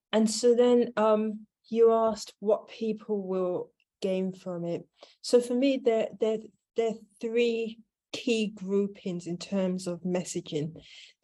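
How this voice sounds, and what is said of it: British accent. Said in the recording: “some in the UK where I'm based. You may or may not have noticed by my accent.”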